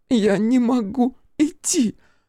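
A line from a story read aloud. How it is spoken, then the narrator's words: Sob. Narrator (Russian): всхлипнула она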